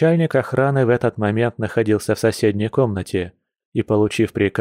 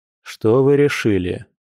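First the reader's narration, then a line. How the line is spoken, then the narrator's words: Calm question. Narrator (Russian): Дима спокойно спросил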